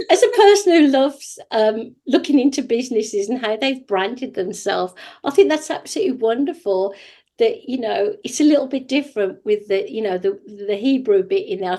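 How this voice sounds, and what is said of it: British accent. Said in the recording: “I've got a British accent, but they don't always understand what I'm saying”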